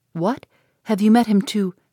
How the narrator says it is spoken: Eleanor, startled by his manner, anxiously, saying

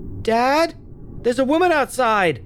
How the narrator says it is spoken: Charlie yelled from one of the windows

